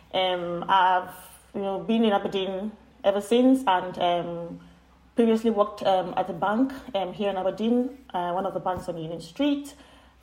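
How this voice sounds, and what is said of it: Nigerian accent. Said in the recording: “As you can tell from my name and my accent, I am from Nigeria.”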